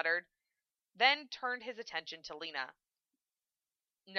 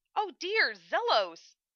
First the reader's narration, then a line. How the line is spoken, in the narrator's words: Hokuto exclaimed